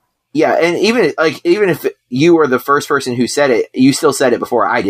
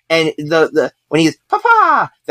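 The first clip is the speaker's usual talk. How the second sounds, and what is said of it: Mario-style Italian accent. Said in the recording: “That is the most Mario-sounding Italian accent I could muster.”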